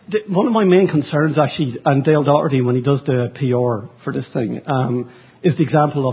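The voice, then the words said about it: Mild Irish accent. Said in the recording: “I have the Lucky Charms accent. Sorry, I'm actually Irish, so I try to keep it at a 2. And sometimes it goes up to an 8 when I get excited.”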